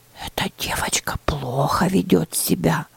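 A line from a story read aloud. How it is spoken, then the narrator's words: Whisper. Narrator (Russian): прошептала Лаура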